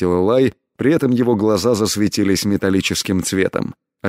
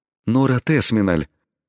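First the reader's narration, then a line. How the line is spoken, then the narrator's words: Astonished emotional exhale. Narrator (Russian): пораженно выдохнул дворецкий, дав волю своим чувствам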